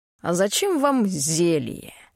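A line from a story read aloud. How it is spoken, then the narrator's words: Scornful snort. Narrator (Russian): фыркнул библиотекарь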